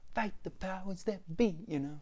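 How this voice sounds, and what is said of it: Bad imitation of a rap line. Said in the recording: “my bad impression of that”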